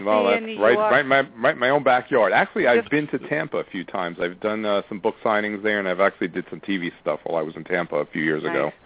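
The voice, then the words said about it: East Coast American accent. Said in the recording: “you have that East Coast accent”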